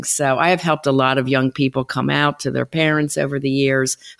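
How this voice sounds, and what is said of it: Philadelphia accent. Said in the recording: “with that charity accent ... You're hearing it, huh? ... Yeah, for sure. I'm a Philly girl.”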